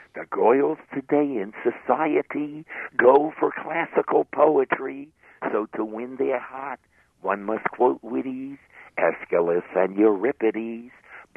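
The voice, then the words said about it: Put-on New York accent. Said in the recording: “I'm going to do my New York accent now”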